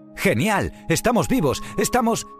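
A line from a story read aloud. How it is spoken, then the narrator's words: Surprised exclamation. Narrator (Spanish): exclamó Baiana mientras miraba sorprendida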